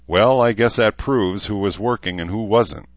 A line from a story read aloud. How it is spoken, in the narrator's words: Herzer chuckled, then guffawed